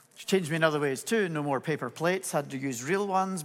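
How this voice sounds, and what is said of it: Scottish accent with Irish influence. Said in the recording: “My accent has a whole lot more to do with the fact my wife is Irish than it is that I was born in Scotland”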